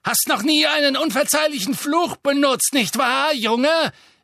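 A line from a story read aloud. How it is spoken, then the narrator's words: Calling out. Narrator (German): rief sie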